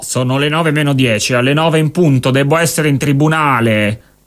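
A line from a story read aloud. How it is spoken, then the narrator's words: Lawyer shouting. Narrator (Italian): gridò un avvocato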